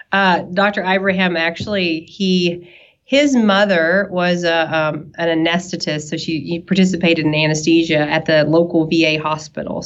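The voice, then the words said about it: Southern US accent. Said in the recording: “you can tell from my accent probably that I'm a, a little southern ... I'm from East Tennessee.”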